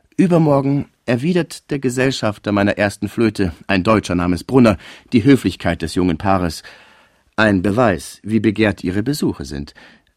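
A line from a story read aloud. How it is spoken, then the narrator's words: Plain. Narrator (German): sagte der Präsident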